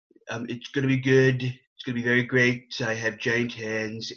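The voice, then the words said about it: Donald Trump impression. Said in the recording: “good Trump impersonation”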